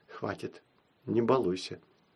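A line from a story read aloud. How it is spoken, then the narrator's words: Mother's whisper. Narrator (Russian): мама шепнула ей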